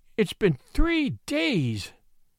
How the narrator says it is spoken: moaned the miniature painter

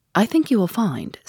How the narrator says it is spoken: said Sherlock Holmes

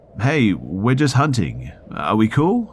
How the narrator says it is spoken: They weren't sure what it was at first, so they called out

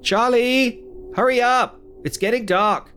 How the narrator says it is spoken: I yelled to my son

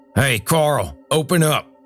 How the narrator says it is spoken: Earl shouted

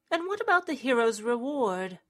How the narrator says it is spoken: Thorn sighed

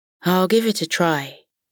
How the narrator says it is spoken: Lana replied

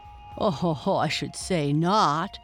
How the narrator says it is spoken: answered Bigfoot as he laughed now

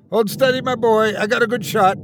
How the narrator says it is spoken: shouted back as I felt the aged titan's ragged breath

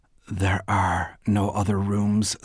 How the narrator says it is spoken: said Bernice

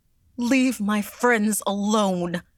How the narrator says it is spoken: she cried

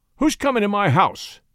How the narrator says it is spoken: demanded Henry, angrily

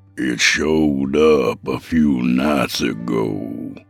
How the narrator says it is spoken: he said in an ominous tone

